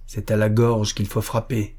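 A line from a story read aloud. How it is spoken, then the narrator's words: Dark, grim voice. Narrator (French): dit Magnus d'une voix sombre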